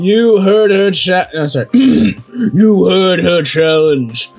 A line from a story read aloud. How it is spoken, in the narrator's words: growled the middle head happily